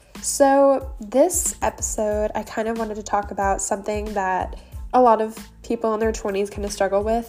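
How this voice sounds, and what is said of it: Hoarse, worn-out voice. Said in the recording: “sorry my voice sounds so shot. I've recorded this like maybe 5 or 6 times.”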